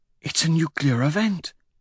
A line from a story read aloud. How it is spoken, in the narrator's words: she whispers